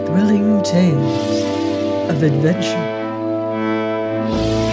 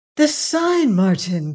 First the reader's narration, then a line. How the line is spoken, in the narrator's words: cried she